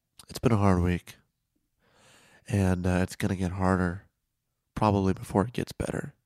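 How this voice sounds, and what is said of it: Hoarse, strained voice. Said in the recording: “I've kind of lost my voice, as you can hear”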